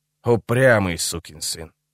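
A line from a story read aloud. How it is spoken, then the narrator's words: Grumble. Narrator (Russian): проворчал он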